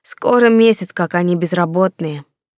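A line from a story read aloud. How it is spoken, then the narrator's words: Sighing boy. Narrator (Russian): вздохнул мальчишка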